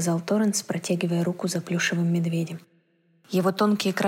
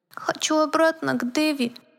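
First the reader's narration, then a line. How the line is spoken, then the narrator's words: Thin little voice. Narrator (Russian): произнес плюшевый мишка тоненьким голоском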